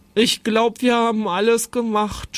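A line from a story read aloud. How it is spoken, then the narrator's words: Groaning in pain. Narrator (German): stöhnte Jonathan, dem der Bauch vom Würstchenessen wehtat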